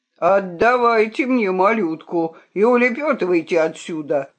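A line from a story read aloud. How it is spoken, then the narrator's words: Loud bark. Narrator (Russian): гаркнул нагнеток на зверей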